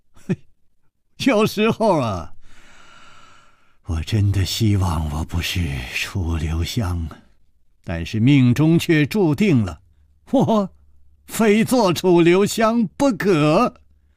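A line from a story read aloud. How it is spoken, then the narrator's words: Light laugh. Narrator (Chinese): 楚留香笑了笑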